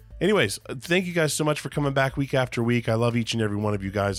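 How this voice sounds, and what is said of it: Rough, sick-sounding voice. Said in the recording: “apologize for my voice. ... It is still coming back from that sickness ... it sounds a little bit gross and weird”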